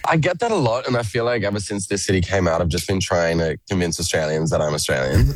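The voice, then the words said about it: Mixed Australian-American accent. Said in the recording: “My accent is an absolute mess. ... you sound like a bloody Yank.”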